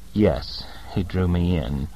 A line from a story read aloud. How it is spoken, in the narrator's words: said miserably